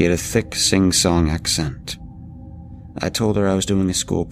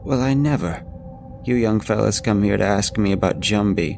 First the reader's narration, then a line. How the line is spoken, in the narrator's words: said before chuckling deeply